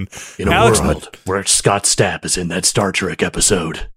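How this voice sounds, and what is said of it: Movie trailer announcer voice. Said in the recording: “trailer voice.”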